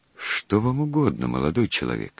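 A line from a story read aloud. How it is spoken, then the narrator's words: Meek voice, old man. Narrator (Russian): старик спросил у него кротким голосом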